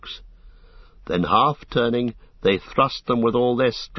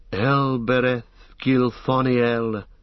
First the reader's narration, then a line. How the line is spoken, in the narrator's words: sighed Legolas